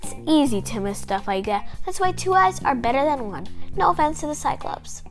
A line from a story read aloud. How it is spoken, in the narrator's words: In a reassuring voice, James said